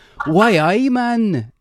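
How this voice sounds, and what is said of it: Put-on Geordie accent, swallowed words. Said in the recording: “a Geordie accent ... From Newcastle. It's like you're just fucking eating every single word.”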